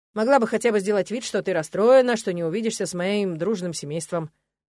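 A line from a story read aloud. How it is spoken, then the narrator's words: Young man's smirking snort. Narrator (Russian): хмыкнул парень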